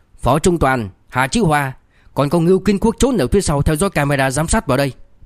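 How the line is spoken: Angry, fierce. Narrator (Vietnamese): Liêu Kinh Vũ hung hăng vỗ bàn tức giận

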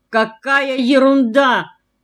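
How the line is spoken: Loud but confused mother. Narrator (Russian): громко сказала мама, но в голосе ее была растерянность

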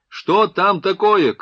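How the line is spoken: Distant shout. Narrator (Russian): крикнул издали

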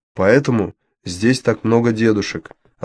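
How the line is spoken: Plain. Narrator (Russian): ответил Мао

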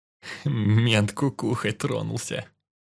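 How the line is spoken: Whisper, suppressing laughter. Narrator (Russian): прошептал он мне в ухо, сдерживая, чтобы не захохотать

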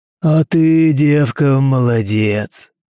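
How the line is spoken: Booming. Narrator (Russian): прогудел он

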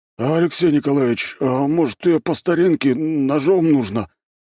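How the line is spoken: Timid question. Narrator (Russian): робко спросил Григорий

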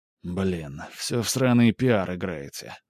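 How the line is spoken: Sighing. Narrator (Russian): вздохнул Скип

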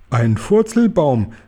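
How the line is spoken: Joyful call. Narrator (German): rief der Guri und strahlte vor Freude

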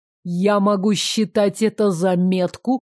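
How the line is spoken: Near growl. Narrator (Russian): Демьян не сказал это, а практически прорычал

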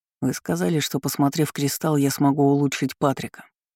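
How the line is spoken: Plain. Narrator (Russian): ответил он

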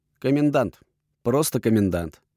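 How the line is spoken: Snort. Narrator (Russian): хмыкнул я

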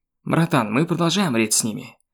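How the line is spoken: Angry nervous blurt. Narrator (Russian): Пак Чон Су и так уже был весь на нервах злобно выпалил

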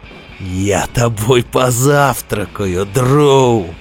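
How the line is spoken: Giant's booming laugh. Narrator (Russian): захохотал гигант

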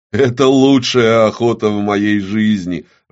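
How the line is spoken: Loud laughter. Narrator (Russian): расхохотался Гааб

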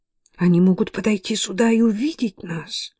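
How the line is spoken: Trembling whisper. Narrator (Russian): прошептала дрожащая Мэтти

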